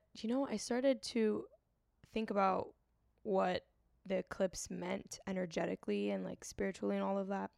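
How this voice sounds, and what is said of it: Raspy, hoarse voice. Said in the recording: “my voice is so raspy... I'm trying to drink some tea to sound better”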